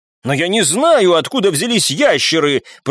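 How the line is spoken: Shouted reply. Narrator (Russian): прокричал в ответ тот, кого назвали Питером

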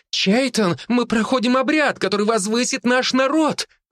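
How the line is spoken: Shouted out. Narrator (Russian): выкрикнула Аванна

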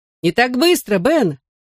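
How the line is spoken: Warning shout. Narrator (Russian): предупреждающе крикнул я

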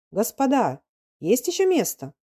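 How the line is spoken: Shy young man shouting. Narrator (Russian): Иван Иванович, высокий, черный надзиратель, совсем молодой еще, конфузливый, добрый, и крикнул

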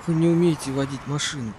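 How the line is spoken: Hoarse. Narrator (Russian): сипло сказал Вайсборд

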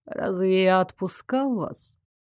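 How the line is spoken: Lazy surprise. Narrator (Russian): лениво удивился Норберг

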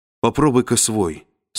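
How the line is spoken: Plain. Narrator (Russian): сказала она

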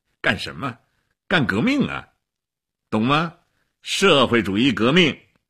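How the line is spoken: Laughing. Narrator (Chinese): 齐比索夫笑起来了

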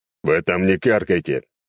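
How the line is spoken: Grumbling. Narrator (Russian): проворчал я

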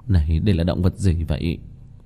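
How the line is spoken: Dazed muttering. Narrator (Vietnamese): Kim Mẫn Cơ sắc mặt ngây ngẩn lẩm bẩm

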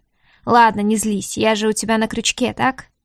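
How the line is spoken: Question with a snort. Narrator (Russian): хмыкнув, спросил

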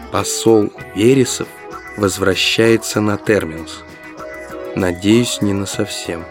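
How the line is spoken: Quiet. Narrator (Russian): тихо сказал

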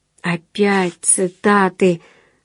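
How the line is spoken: Sighing. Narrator (Russian): вздохнул отец

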